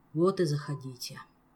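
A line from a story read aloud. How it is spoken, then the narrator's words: Sighing. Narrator (Russian): вздохнул принц-бастард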